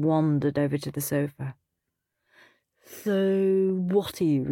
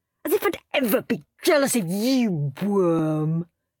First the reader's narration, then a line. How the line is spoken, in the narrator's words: sneered Henry